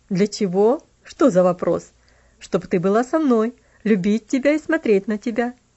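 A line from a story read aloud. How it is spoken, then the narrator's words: Laughing. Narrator (Russian): засмеялся он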